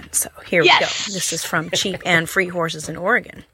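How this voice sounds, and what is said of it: Put-on Southern US accent. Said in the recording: “I'm wanting to try out my southern accent”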